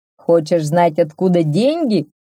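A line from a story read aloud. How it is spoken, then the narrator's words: Shouting blacksmith. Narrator (Russian): закричал кузнец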